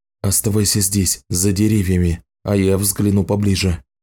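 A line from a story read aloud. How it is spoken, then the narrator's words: Whispered. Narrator (Russian): шепнул он Саманте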